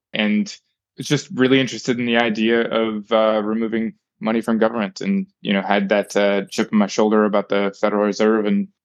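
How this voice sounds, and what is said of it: American accent. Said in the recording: “I was a young American, obviously, you can tell by my accent”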